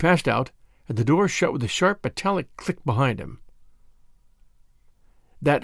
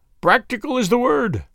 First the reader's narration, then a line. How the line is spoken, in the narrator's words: said he, with another hateful chuckle